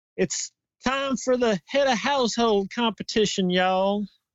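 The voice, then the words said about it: Put-on strong Southern US accent. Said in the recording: “you got the super Southern accent.”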